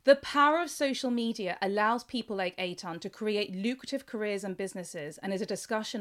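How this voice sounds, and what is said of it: English accent. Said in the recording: “I love hearing my voice in an English accent ... They love a British accent.”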